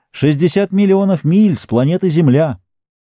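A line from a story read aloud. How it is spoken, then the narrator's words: Loud. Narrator (Russian): громко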